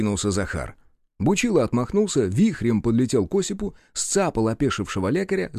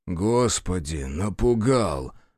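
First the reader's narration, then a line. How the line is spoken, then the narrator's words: Startled exhale. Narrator (Russian): выдохнул Осип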